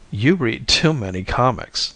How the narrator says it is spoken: I laughed it off

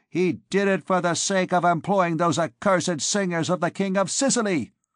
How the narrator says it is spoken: cried an old woman sharply from among the crowd beneath the window

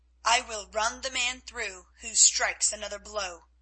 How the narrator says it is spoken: said, in a cold, clear voice

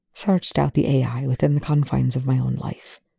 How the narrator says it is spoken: the scientist whispers

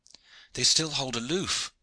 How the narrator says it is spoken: cried Hawtayn

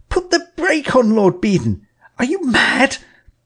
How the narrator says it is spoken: I cried

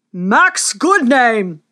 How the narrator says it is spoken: thundered the king

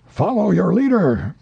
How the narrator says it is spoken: cried the mate

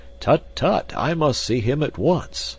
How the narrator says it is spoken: cried the professor

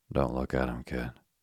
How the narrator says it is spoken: the man said quietly

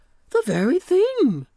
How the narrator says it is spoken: cried Uncle Wiggily, jolly-like

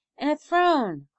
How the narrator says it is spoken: cried Malone

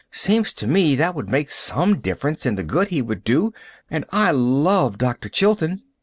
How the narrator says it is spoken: sighed Pollyanna

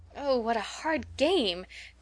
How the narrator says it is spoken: cried some of the girls

